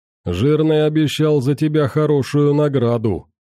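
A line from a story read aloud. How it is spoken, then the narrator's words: Deep mocking voice. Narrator (Russian): с усмешкой пробасил он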